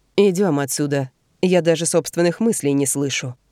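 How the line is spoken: Plain. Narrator (Russian): говорит он

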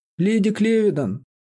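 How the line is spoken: Astonished exclamation. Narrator (Russian): воскликнула мистерис Буш с изумлением

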